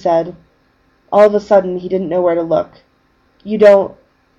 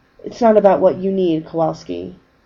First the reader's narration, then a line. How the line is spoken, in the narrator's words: Becchio said quietly